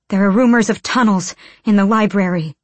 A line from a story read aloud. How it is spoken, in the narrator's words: Irene panted